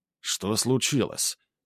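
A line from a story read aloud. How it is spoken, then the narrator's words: Quiet question. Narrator (Russian): тихо спросил Грубер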